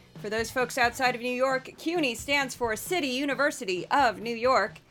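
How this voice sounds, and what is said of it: Hoarse, sick-sounding voice. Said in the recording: “I'm still sort of getting over COVID. You can hear it in my voice a little bit ... I'm difficult to understand at times. I just still have a lot of inflammation in my throat.”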